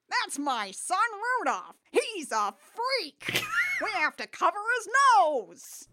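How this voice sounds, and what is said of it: Rudolph's dad character voice. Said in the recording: “your Rudolph's dad voice”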